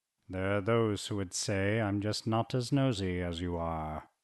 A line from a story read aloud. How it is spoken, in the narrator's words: Unflustered, Chernok ... muttered